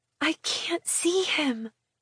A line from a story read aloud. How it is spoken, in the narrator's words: I whisper